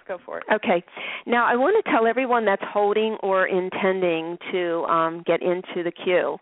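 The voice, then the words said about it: Hoarse, strained voice. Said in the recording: “I'm losing my voice ... I had a coughing fit before we went on ... excuse me if I sound a little funny”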